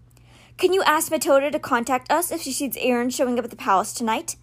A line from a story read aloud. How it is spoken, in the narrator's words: Alex asked Charlie